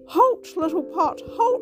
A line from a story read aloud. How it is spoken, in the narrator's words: cried the mother